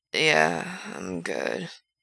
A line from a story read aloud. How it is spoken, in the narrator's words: Frank says, slow and a little slurred